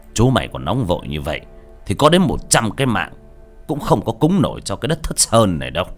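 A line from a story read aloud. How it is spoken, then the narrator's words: Laughing yet stern. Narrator (Vietnamese): Chiến Danh vừa cười, nghiêm giọng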